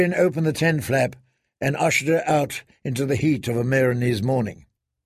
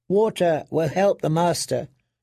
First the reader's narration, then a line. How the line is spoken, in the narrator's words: Penny said